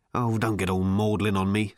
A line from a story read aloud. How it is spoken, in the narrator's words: snapped